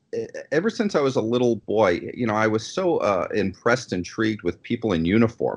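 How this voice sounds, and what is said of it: New York accent. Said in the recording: “I am from New York originally. If my accent didn't come out”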